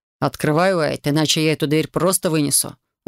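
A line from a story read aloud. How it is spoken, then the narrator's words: Menacing dragon growl. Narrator (Russian): угрожающе прорычал дракон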